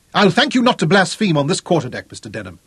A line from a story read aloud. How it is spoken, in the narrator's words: Clinton told him sharply